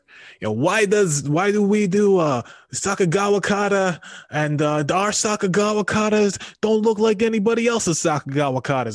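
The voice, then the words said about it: Impression of a New York accent. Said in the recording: “do an impression of his voice ... he's from New York”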